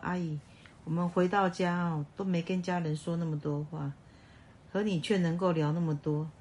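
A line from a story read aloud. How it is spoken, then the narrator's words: Joking. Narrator (Chinese): 还会开玩笑的说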